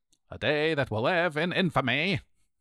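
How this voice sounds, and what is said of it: FDR impression. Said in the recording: “my FDR imitation.”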